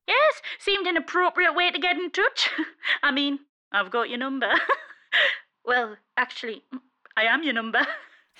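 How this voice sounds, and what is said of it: Geordie accent. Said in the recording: “Why have you got a Geordie accent? ... All phones are Geordie.”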